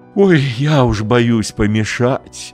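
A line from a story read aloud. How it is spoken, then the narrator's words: Happy sigh. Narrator (Russian): счастливо вздохнула Богданова мама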